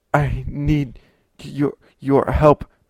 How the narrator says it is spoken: he sputtered

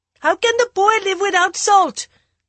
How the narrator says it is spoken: the maidservant shouted through the windows

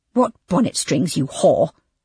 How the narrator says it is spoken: snapped the abbess

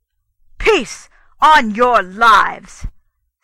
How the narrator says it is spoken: said the king in a great voice

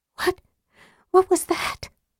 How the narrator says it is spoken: Tika quavered

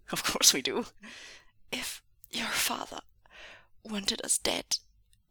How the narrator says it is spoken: wheezed Xishan

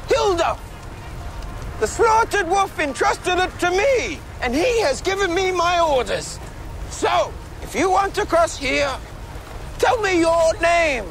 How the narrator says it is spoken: He cupped his hand and shouted

